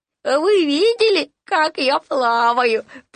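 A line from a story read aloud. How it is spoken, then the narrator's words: Delighted squeak. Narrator (Russian): пропищал Ру в восторге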